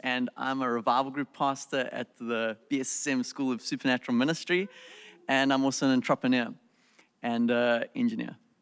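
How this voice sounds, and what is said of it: South African accent. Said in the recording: “I'm originally from South Africa, so that's my accent. ... It's that accent. ... We love that accent.”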